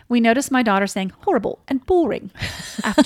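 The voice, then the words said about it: Put-on British accent. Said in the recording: “You have a great British accent.”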